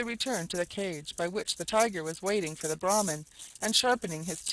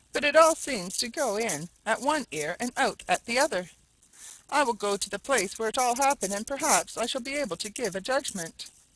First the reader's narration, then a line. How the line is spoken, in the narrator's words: said he, sadly